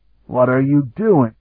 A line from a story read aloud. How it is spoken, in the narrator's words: Sparhawk choked